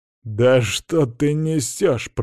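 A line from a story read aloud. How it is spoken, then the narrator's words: Hissing. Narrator (Russian): прошипел Карл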